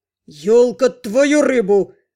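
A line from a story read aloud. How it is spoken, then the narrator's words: Bark near the ear. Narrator (Russian): рявкнул над ухом знакомый голос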